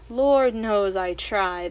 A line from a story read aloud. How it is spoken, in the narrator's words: the queen sighed